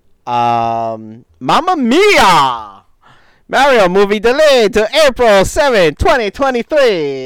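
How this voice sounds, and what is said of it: Put-on generic Italian accent. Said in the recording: “insert generic Italian accent.”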